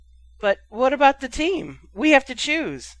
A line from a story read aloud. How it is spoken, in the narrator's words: said Andrew Kirk hesitantly